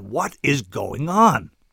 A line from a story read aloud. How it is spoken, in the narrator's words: said desperately